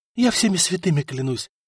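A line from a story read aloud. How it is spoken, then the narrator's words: Passionate whisper. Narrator (Russian): жарко зашептала Мария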